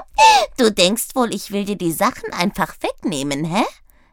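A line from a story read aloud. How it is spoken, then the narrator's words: Giggling little fellow. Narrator (German): kicherte das Kerlchen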